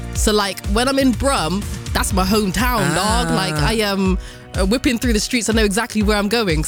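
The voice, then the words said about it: Strong Bristolian English accent. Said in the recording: “they have strong Bristolian accents ... I can't not hear your Bristolian accent ... I've got this strong Bristolian accent”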